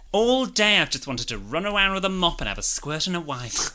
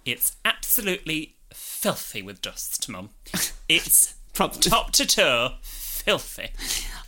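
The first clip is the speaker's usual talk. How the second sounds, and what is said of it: Camp voice imitating another person. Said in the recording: “your impression of young me ... Camp Young Jordan”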